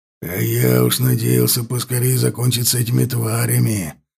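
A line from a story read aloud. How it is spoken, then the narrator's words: Growled. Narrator (Russian): зарычал ворк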